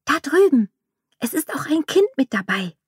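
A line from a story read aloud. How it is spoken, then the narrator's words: Excited whisper. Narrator (German): Aufgeregt flüsterte sie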